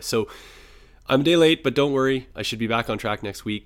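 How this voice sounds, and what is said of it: Sick-sounding voice. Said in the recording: “a little bug that I've developed here, as you can probably hear in my voice”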